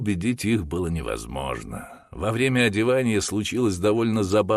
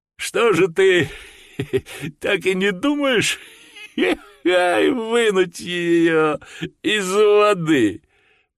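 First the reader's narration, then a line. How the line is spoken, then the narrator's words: Choking with laughter. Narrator (Russian): проговорил Джордж, захлебываясь от хохота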